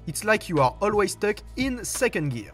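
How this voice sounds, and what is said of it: French-accented English. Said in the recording (French): “mon accent anglais”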